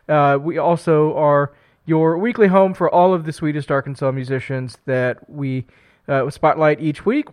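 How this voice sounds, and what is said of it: Weird-sounding voice from a cold. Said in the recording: “I'm fighting a cold. My voice is going to be a little weird tonight”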